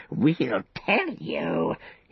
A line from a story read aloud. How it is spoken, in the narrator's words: he croaked